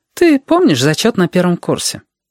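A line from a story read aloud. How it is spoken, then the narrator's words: Light, cheerful tone. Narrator (Russian): Женщина говорила легко и даже весело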